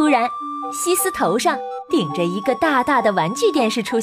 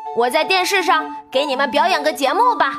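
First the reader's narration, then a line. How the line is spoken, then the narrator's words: Shouting. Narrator (Chinese): 西斯喊道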